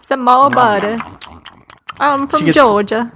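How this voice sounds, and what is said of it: Bad put-on Southern US accent. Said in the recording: “That's a horrible accent. That's so bad. ... You sound like you're from London by way of Georgia.”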